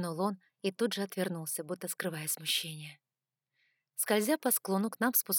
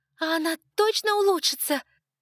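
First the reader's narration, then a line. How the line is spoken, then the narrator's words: Shout. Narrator (Russian): крикнула я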